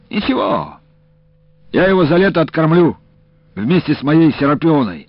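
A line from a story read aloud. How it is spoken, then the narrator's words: Cheerful. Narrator (Russian): говорит Илико, весело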